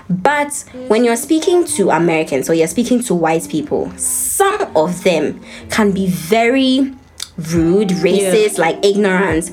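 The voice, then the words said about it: Ghanaian-accented English. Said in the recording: “I never ever lost my accent ... my Ghanaian friends”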